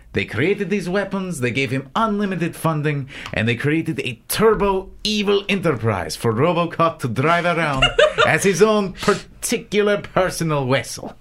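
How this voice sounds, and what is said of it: Put-on accent. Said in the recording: “all I can hear is the accent at this point”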